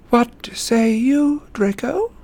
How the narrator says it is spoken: asked Voldemort, and though his voice was quiet, it clearly carried through the catcalls and jeers

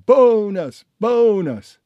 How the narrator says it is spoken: shouted

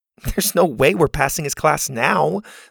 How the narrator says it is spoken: Zeta said with a scoff

